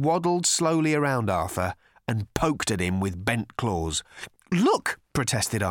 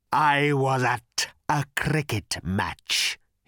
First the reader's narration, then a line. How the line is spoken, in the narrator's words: he rasped